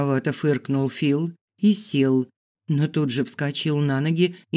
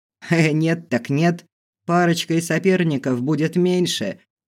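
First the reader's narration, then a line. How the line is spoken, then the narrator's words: Laughing command. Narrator (Russian): хохотнул кто-то и приказал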